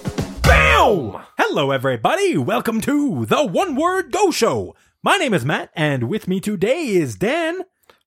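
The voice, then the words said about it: Radio announcer voice. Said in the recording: “I don't know why I switched to this radio announcer voice. ... That's your podcast voice.”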